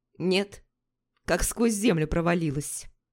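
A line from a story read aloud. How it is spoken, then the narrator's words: Calm. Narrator (Russian): спокойно ответил Хейли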